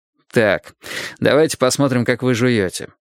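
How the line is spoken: Lawyer, with a snort. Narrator (Russian): хмыкнув, сказал адвокат

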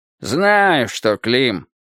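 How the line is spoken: Grumbling. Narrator (Russian): проворчал Футурум

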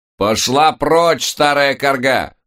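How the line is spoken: Loud shout. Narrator (Russian): громко выкрикнула леди Мелисса

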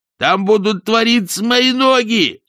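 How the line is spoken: Shrill squeal. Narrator (Russian): взвизгнул Ринсвинд

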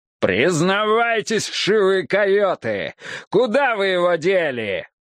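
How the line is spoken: Father's angry growl. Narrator (Russian): рычал папаша

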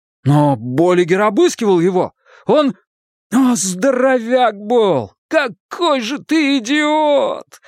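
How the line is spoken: Groaned. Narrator (Russian): застонал он

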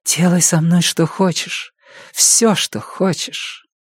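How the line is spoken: Close whisper in ear. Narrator (Russian): она прижималась губами к моему уху и шептала

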